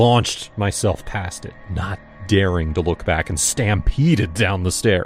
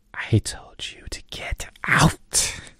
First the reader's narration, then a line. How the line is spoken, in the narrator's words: whispered in my ear